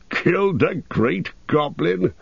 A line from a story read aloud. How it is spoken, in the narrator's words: He chuckled fiercely to himself